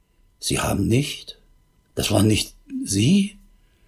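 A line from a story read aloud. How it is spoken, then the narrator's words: Barely audible distraught stammer. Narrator (German): völlig aus der Fassung und stammelte kaum hörbar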